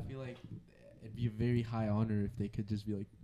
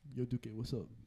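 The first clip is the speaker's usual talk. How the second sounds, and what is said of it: Bad imitation of another person's accent. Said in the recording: “That's the worst Jurgen accent ever.”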